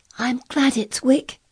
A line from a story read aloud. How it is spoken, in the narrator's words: she cried out in her whisper